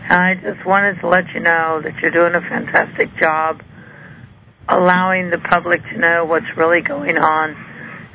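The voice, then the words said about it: Slightly hoarse voice. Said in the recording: “I apologize for my voice. It's a little hoarse tonight.”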